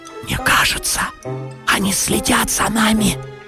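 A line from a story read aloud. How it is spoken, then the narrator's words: Whisper. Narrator (Russian): прошептал Гриша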